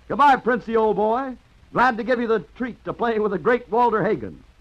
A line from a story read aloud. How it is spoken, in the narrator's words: grinned cheerfully and shouted